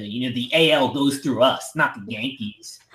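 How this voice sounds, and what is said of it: Imitates another person's voice. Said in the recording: “Your Verlander impression ... That was my Verlander impression.”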